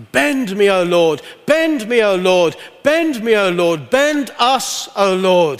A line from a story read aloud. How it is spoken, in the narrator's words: cried out